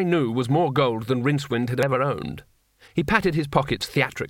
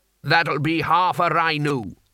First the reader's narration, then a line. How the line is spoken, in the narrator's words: said the landlord